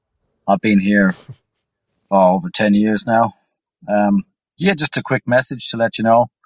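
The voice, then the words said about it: Irish accent. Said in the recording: “I'm Irish, obviously, as you can probably hear in my voice.”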